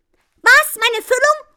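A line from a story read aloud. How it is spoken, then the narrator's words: Woman screaming. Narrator (German): schreit die Frau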